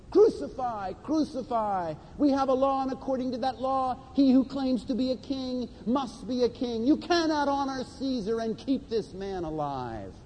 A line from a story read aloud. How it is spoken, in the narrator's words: the chief priests and their officials shouted